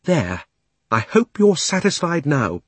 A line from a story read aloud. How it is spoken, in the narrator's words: panted Polly